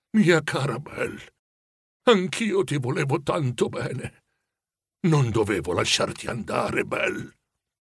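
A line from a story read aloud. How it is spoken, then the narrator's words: Murmured. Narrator (Italian): mormorò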